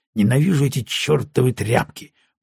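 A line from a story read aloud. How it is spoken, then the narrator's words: Mutter. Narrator (Russian): пробормотал он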